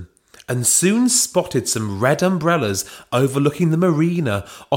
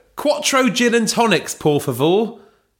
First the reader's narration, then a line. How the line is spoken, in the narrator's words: shouted Belinda